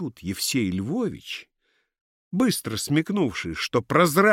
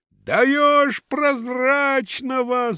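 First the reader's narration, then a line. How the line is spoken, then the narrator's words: Crowd shouting. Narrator (Russian): закричала толпа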